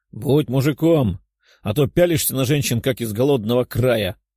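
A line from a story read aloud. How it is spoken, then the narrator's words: Chuckling. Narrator (Russian): хохотнул Пухляш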